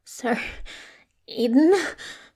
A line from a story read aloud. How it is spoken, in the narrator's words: she rasps